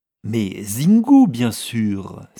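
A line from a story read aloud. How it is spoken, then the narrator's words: Exclaiming. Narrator (French): s'exclama-t-elle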